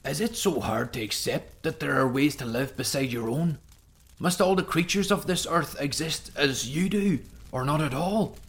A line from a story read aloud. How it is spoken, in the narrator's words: pleading